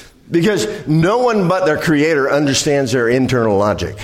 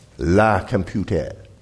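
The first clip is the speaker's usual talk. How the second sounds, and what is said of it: Bad fake French accent. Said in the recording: “Bad French accent.”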